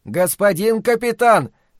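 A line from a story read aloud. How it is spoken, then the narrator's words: Sudden shout from below. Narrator (Russian): закричал вдруг снизу сержант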